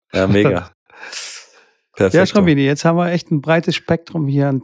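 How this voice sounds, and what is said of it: Hoarse, worn-out voice. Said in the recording (German): “meine Stimme ist auch schon langsam, langsam am, am Ende ... ich habe nur rumgekrächzt”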